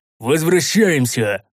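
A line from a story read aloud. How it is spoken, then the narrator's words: Leader shouting. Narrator (Russian): прокричал лидер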